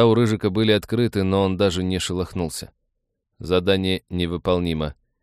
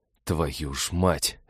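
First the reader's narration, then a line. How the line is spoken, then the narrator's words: Resigned exhale. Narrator (Russian): обреченно выдохнул Олег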